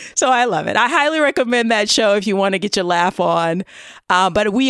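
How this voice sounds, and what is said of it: Usual voice. Nothing is said of it.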